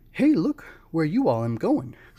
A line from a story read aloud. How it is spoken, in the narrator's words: cried one of the boys